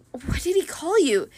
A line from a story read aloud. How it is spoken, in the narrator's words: Bianca muttered